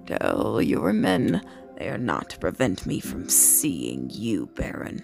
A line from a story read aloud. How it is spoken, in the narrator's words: Sardaukar growled